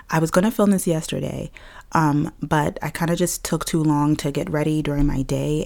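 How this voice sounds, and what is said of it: Raspy, deeper than usual voice. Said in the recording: “my voice is a little bit raspy today... Mine is a little deeper than normal... it's a little bit deeper than normal... my throat's a little bit scratchy”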